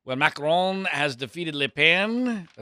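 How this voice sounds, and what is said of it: Bad imitation French accent. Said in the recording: “that's the worst French accent you could possibly ever imagine because I don't know a word of French”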